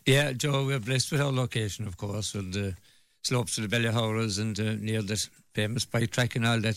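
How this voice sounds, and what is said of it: Hoarse voice. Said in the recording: “I'm a little bit hoarse now”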